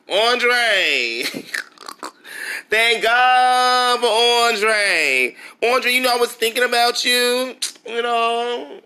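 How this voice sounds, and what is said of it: Impression of Diana Richardson. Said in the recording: “in my Diana Richardson voice”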